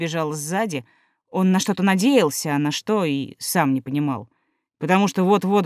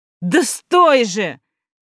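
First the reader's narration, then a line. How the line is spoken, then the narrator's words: Shouting. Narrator (Russian): кричал Сева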